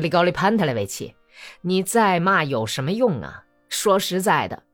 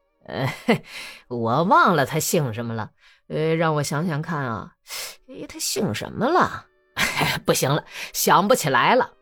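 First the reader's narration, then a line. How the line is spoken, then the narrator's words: Sly answer with smile. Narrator (Chinese): 谢马克狡猾地笑了笑，回答说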